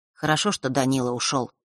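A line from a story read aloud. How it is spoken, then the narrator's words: Quiet. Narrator (Russian): тихо сказал он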